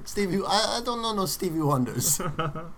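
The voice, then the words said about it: Put-on Spanish-speaker's accent. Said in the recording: “Is that a Florida accent you're doing there? ... like from the bayou. ... It was a Spanish speaking gentleman.”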